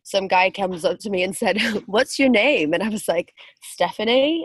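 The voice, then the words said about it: Speaks with a foreign accent. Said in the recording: “because I have an accent”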